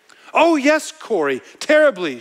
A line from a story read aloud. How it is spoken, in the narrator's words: she said